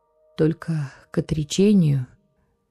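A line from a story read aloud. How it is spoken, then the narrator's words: Slow heavy exhale. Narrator (Russian): тяжелое для себя слово он выдохнул медленно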